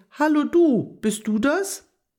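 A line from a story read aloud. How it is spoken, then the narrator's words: Half-hearted call. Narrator (German): Agathe rief etwas halbherzig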